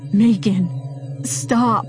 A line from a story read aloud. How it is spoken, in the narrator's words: he pleaded